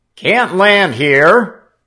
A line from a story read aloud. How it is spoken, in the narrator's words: the soldier shouted back